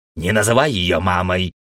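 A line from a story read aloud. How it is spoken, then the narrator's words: Rude interruption. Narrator (Russian): грубо перебил Пердик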